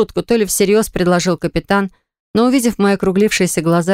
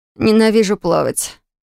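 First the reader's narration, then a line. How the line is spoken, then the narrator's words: Through gritted teeth. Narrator (Russian): сквозь зубы поделилась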